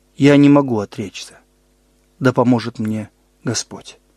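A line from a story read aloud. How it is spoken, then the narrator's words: Calm reply. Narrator (Russian): реформатор спокойно ответил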